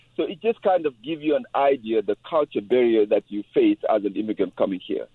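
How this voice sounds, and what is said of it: French accent. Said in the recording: “my French accent that I have”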